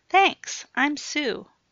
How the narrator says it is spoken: chirped the bubbly blonde

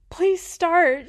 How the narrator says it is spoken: she begged

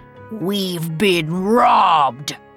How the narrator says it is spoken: he growled

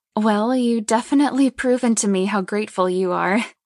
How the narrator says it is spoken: Lainey chuckles

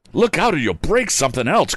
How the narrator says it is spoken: cried a lad

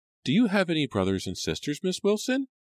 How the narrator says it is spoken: Rachel asked eagerly

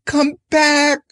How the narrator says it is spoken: she screamed

